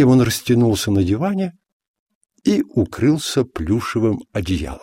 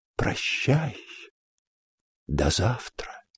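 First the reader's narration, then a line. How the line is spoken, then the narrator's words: Whispered. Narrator (Russian): прошептал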